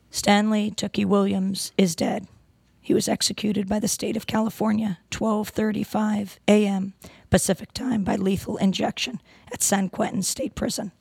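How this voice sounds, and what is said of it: Hoarse voice from laryngitis. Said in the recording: “excuse my voice. I have laryngitis.”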